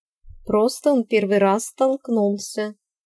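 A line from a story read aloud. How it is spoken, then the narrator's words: Calm, knowing smile. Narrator (Russian): спокойно ответила Ирис с чисто женской знающей улыбкой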